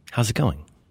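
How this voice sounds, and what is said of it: Smooth public radio announcer tone. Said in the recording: “You're using your public radio voice. ... I'm using my public radio voice. ... you speak in this tone and occasionally emphasize a strange word.”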